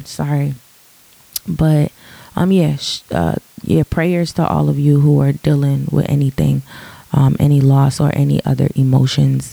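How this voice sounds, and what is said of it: Deep, slightly raspy morning voice. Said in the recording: “my voice is kind of deep. My voice is deep in the morning. This is how I sound in the morning. My voice is, you know, a little raspy, but not like a high raspy”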